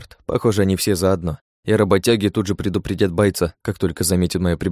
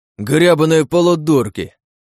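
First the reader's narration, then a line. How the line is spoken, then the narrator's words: Roaring fighter. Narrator (Russian): Взревел боец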